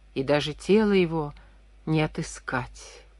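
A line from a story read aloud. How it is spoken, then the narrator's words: Whispered. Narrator (Russian): прошептал он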